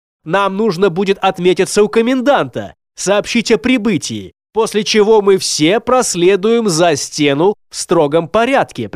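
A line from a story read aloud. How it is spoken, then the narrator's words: Commanding tone. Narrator (Russian): приказным тоном объявил он своим слишком своевольным спутникам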